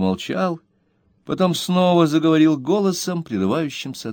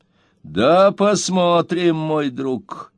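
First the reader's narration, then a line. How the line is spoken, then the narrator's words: Menacing. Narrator (Russian): грозно ответил мистер Бен Эллен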